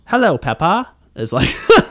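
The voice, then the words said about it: Deliberately bad British accent. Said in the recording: “I do like a terrible Southern / British accent, and I think they sort of become one and the other sometimes ... refining my British accent ... my terrible accent”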